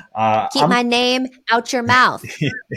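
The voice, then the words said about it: Imitates another person's voice, not very good. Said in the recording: “my Will Smith impression, but I didn't do a very good job of it.”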